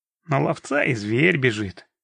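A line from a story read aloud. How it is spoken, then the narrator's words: Grumbling. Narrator (Russian): проворчал Рус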